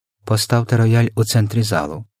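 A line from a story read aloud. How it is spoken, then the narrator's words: Whispered order. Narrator (Ukrainian): пошепки розпорядився містер Тибс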